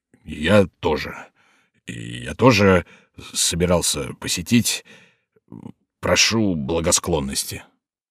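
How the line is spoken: Forced out with effort. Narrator (Russian): С большим трудом он выдавил

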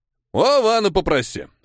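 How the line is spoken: Snorting. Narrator (Russian): хмыкнул Дора

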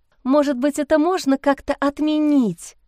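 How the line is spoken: Pleading. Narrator (Russian): взмолилась Лиза

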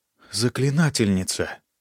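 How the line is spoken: Awed whisper. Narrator (Russian): с трепетом прошептала Шенни

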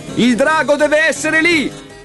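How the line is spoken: Yelling. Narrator (Italian): urlò Leo

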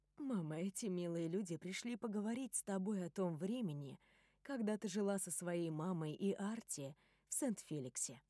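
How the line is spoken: Soft gentle voice. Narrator (Russian): мягко говорит Сьюзен

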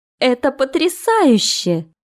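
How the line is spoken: Exclaimed. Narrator (Russian): воскликнула Эмма

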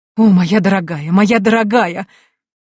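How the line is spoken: Exclaiming. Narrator (Russian): воскликнула гостья

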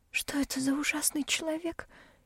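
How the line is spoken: Frightened whisper. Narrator (Russian): испуганно шепчет Энси

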